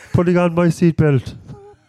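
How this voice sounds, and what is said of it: Imitates another person's voice. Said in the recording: “my Paul Mescal impression ... I don't know why he sounds like The Rock all of a sudden there”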